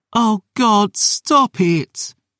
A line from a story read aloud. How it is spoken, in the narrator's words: she wailed